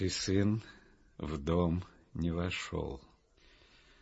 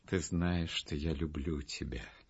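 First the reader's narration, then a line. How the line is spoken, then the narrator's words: Tender, affectionate. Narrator (Russian): сказал он ласково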